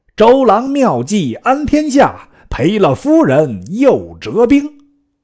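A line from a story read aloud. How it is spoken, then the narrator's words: Soldiers shouting in unison. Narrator (Chinese): 岸上军士齐声大叫曰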